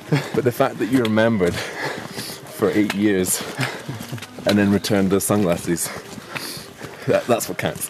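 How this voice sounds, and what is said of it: Out of breath speaking. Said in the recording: “speaking out of breath”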